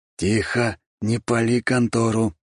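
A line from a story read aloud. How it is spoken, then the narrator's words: Hissing. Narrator (Russian): прошипел он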